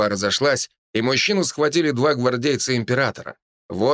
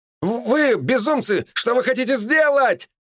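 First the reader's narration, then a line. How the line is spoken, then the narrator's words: Man shouting. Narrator (Russian): кричал мужчина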